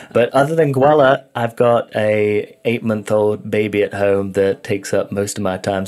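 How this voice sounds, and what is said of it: A noticeable foreign accent. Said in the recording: “that beautiful accent”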